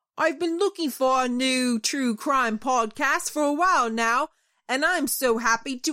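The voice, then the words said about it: Put-on Cockney accent. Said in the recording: “your famous Cockney accent ... the only Great British accent I could do”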